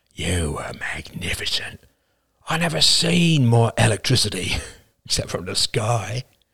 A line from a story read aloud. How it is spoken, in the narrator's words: the dark-haired man leaned over with glowing eyes and whispered